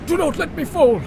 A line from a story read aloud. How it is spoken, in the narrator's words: I gasped, for I felt life in me again